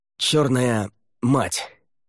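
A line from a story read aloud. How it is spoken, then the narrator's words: Breathed out. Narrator (Russian): выдохнул он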